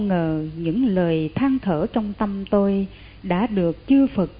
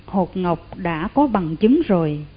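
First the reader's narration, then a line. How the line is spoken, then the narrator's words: Joyful voice. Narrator (Vietnamese): Chị tôi nói với giọng mừng rỡ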